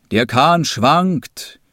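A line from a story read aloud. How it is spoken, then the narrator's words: Old man calling out. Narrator (German): rief der Alte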